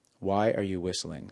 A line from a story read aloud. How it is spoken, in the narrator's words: said Gina